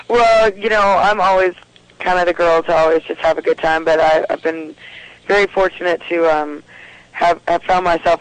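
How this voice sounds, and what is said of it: Hoarse, fading voice. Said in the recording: “I am noticing that I'm losing my voice because I've been working a lot.”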